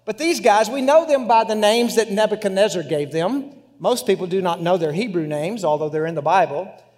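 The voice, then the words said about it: West Texas accent. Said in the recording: “my English and my West Texas accent”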